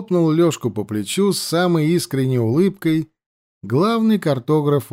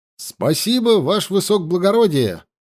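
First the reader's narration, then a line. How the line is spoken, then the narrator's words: Zealous loud barked reply. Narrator (Russian): Со всей усердностью рявкнул Лёшка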